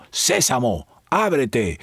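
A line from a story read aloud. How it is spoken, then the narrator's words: Chief shouting. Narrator (Spanish): el jefe gritó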